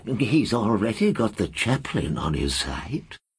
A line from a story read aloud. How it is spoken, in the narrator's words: the librarian murmured in reply